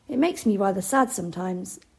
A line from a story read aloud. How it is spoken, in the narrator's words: Anna sighed